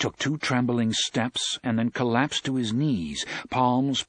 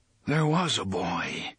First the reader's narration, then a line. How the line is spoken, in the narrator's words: the gunslinger said in a distant, muttering voice